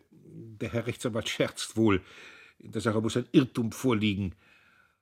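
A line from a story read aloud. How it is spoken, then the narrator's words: Stammering. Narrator (German): Er stammelte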